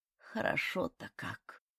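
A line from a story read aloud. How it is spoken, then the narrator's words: Sighing. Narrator (Russian): вздохнула она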